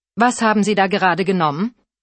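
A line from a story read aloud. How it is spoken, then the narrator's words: Firm-voiced question. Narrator (German): fragte er mit fester Stimme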